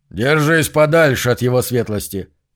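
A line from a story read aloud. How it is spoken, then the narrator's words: Barked. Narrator (Russian): рявкнул Зу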